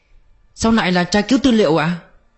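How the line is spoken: Near shriek. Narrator (Vietnamese): Đi Tây gần như thét lên

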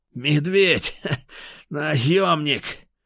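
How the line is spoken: Loud laugh, coughing blood. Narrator (Russian): Атаман горилла громко рассмеялся, выхаркивая кровь

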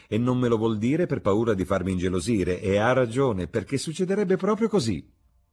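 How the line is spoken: Exclaimed. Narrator (Italian): esclamò Lady Narborough

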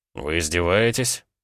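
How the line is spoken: Dry inquiry. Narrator (Russian): Сухо поинтересовался Гаранин

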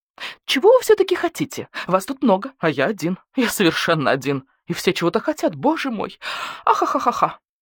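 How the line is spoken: Fit of shaking laughter. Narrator (Russian): Официант йод затрясся в приступе хохота

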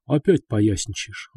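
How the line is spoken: Sighing. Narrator (Russian): вздохнул Рыжий

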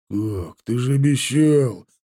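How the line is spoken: Bandit groaning. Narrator (Russian): простонал бандит

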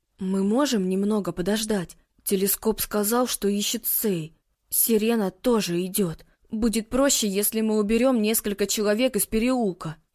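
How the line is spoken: Mutter. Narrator (Russian): пробормотал Микаэла

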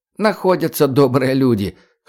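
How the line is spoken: Snort. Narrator (Russian): хмыкнул Коля Эчемин

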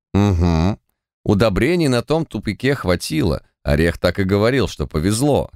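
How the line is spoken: Plain. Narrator (Russian): сказал

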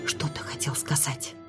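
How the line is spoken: Barely audible question. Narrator (Russian): едва слышно спросила я

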